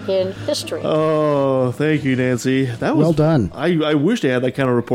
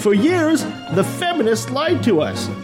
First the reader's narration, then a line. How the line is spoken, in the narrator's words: Christian author Lisa Bevere shouted from the stage